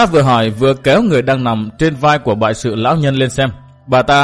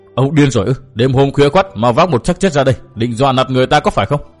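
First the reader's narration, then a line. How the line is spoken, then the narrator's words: Shouted question. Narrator (Vietnamese): Bà ta quát hỏi tiếp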